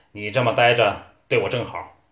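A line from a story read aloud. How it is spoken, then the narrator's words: Stern, harsh. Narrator (Chinese): 他厉声道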